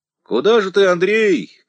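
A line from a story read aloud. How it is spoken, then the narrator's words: Stablehand shouting after someone. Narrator (Russian): кричал вслед конюх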